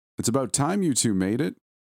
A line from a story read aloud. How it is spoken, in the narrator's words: Angelo called out